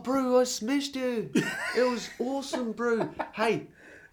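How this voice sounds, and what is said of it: Attempted New Zealand bro accent. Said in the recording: “Can you help me out with the Kiwi accent? ... That's more of a bro accent, but yeah.”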